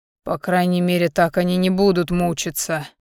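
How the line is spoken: Grim smirk. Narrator (Russian): мрачно усмехнулся Альдар

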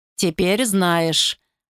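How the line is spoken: Gloomy remark, emperor. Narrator (Russian): мрачно заметил император Йораду

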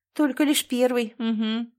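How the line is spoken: Grumbled. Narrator (Russian): проворчала

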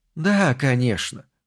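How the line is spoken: Fairly soft. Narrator (Russian): произнесла она довольно мягко

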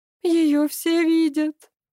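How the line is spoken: Sobbing. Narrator (Russian): зарыдала Вера

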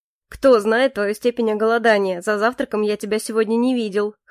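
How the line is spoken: Chuckle. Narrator (Russian): хохотнул Моррис

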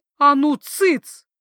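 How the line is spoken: Shouted. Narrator (Russian): крикнула я

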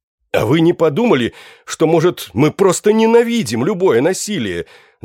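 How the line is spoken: Shouting. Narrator (Russian): закричал я

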